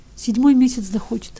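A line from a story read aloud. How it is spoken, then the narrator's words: Tearful reply. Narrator (Russian): отвечал Ивка все еще сквозь слезы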